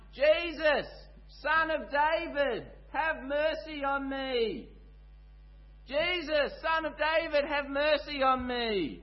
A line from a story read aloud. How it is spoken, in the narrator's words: he starts yelling out at the top of his lungs